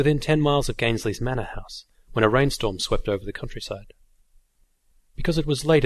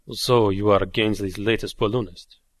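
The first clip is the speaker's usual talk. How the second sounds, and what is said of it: Soft conspiratorial French accent. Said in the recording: “in a soft, almost conspiratorial voice with a French accent”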